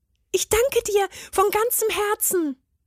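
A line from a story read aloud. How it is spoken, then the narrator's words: Calling out. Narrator (German): rief er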